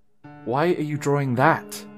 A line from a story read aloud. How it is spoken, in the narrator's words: choked out